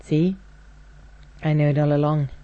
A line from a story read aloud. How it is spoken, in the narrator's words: said, just a little roughly